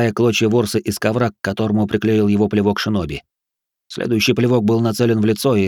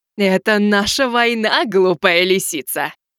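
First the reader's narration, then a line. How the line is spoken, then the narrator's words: Gloating laughter. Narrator (Russian): засмеялась черная вдова, чувствуя, как слаба девчонка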